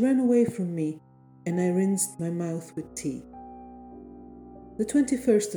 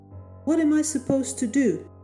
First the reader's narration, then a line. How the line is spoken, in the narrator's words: That was Henry, my grunting husband